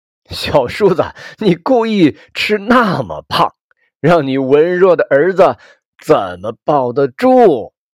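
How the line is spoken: Joking. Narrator (Chinese): 堂哥对着骨灰盒和我父亲开玩笑

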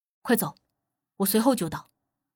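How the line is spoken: Low, firm command. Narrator (Chinese): 无忌沉声吩咐道

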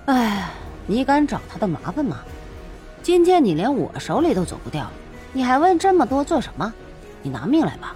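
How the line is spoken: Sighing. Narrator (Chinese): 燕震叹了口气

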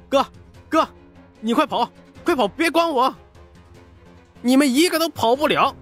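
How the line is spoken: Desperate wounded shout. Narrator (Chinese): 沈宝满身是血的 大喊道

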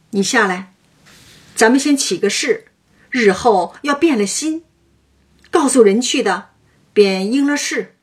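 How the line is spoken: Laughing. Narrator (Chinese): 向薛蟠笑道

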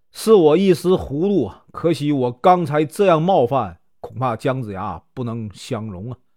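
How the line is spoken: Sighing. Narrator (Chinese): 他叹口气说

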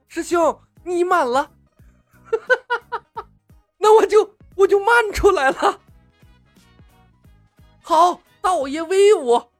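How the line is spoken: Coy laugh, then loud. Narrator (Chinese): 中年道士娇笑了两声，情不自禁的高声道

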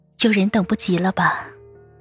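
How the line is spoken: Sigh, faint laugh. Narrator (Chinese): 杜恒叹口气，淡淡笑道

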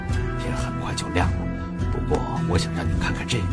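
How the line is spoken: Whispered. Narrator (Chinese): 马丁低声对克拉说

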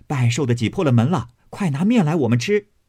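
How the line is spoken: Group of maids laughing. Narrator (Chinese): 翠墨、小罗、翠缕、入画、邢岫烟的丫头转儿，并奶子抱着巧姐儿、彩鸾、绣鸾八九个人，笑着走来说

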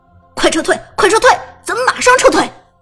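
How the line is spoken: Frustrated shout. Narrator (Chinese): 被宫本切了，郁闷的喊道

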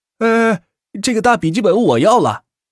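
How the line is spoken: Shouting. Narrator (Chinese): 一名学弟喊道

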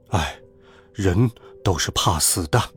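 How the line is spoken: Sighing. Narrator (Chinese): 爸爸叹了一口气

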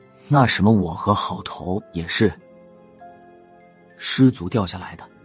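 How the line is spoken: Low voice. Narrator (Chinese): 压低声音说道

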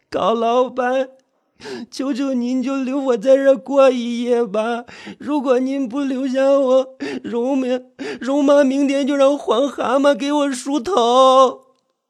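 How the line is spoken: Sobbing plea. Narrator (Chinese): 惠山啼哭起来

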